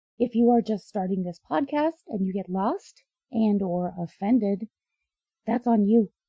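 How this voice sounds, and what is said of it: Hoarse, weakened voice. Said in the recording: “If you can't tell, my voice is still out. I don't think it's ever going to come back.”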